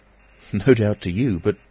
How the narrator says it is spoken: Kemp laughed

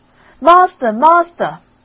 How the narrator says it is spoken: the harp called out quite loud

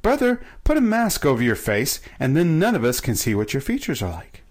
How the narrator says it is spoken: exclaimed joyfully

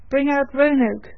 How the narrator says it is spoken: cried aloud

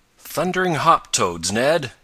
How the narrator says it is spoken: he exclaimed

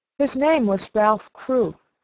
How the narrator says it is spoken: said Sarah

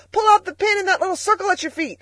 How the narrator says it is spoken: Freckles, standing on the pedals, shouted

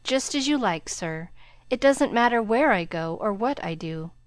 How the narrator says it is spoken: He sighed, and then said in a spiritless tone

